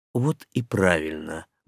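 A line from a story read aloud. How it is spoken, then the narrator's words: Muttered. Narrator (Russian): буркнул влюбленный первый советник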